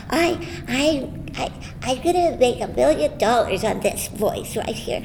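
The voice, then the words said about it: Little girl's voice. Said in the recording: “this little girl's voice”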